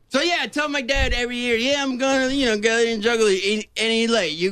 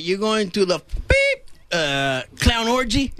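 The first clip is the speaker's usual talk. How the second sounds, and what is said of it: Thick Cuban accent. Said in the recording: “says it with a Cuban thick accent”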